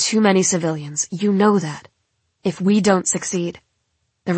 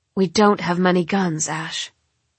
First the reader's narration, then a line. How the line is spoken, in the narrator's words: says grimly